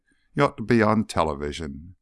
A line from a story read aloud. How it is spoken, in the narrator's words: Burris sighed